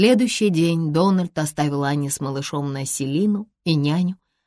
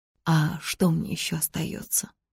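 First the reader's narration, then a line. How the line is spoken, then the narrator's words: Sad question. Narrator (Russian): печально спросила она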